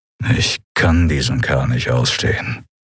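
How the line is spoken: Growled. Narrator (German): knurrte Telios

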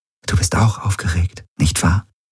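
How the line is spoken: Whisper. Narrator (German): flüsterte sie

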